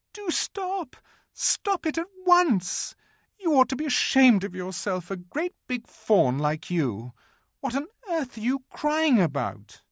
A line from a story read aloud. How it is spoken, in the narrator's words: bawled Lucy in his ear